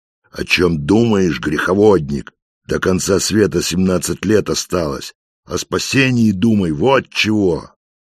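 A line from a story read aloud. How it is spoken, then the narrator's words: Angry old man shouting. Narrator (Russian): старик, насупив брови, сердито кричит в ответ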